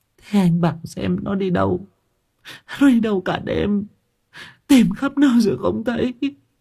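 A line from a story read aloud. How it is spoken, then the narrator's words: Tearful whimpering. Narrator (Vietnamese): Chị Lan mếu máo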